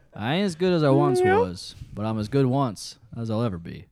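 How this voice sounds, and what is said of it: Put-on country twang. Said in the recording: “I got my twang on now.”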